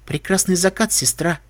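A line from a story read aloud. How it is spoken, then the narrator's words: Quiet. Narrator (Russian): тихо произносит Луна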